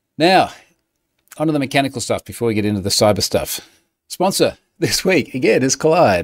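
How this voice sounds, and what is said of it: Noticeable unusual accent. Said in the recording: “I have a funny accent.”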